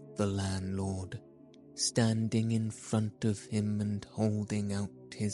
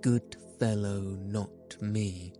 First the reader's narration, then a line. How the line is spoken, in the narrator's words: said the landlord